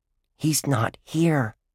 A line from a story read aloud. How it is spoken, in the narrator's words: Dink whispered